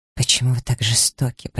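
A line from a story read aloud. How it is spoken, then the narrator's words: Whisper. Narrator (Russian): прошептала Элиза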